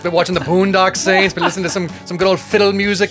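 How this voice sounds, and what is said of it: Put-on Irish accent. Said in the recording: “quite possibly the best Irish accent in True Crime Guys history ... I've been so ready for this accent today”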